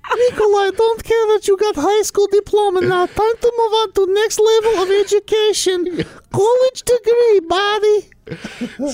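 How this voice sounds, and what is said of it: Imitated elderly babushka character voice. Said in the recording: “we impersonated Mama Babushka's voice”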